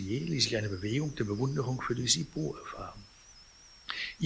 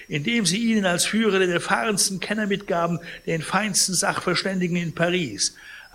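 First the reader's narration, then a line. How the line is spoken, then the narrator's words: Indignant exclamation. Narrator (German): rief Pons empört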